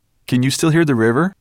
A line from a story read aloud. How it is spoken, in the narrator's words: he asked anxiously